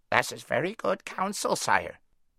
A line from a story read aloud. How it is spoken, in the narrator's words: croaked the raven